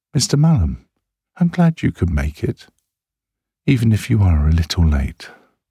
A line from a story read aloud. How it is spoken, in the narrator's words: smiling as warmly as she dare